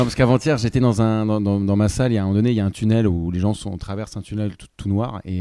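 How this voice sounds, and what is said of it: Usual voice. Nothing is said of it.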